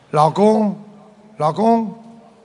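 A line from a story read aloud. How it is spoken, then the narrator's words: Soft call. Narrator (Chinese): 她轻轻地叫了一下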